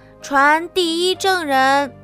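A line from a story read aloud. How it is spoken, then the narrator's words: Loud through megaphone. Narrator (Chinese): 白兔拿起喇叭，高声喊道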